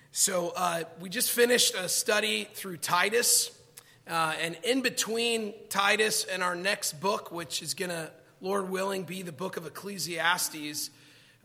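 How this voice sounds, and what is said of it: Hoarse, strained voice. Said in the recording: “I apologize in advance for my voice. I promise I am not sick. I lost my voice at a Dodger game on Friday night ... Just the voice is bad.”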